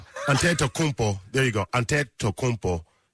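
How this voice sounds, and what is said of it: Attempted Nigerian accent. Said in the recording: “I'm trying to do it with the Nigerian accent”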